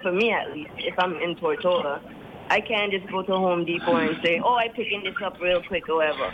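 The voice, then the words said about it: New York-tinged American accent. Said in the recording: “Yankee twang”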